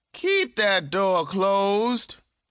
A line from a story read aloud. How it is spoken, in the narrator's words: she hollered to Kalir